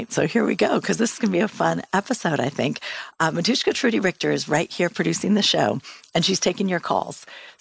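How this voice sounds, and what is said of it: Voice sounds a little off. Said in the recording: “My voice is a little funny tonight. I have really bad asthma and it's gone crazy”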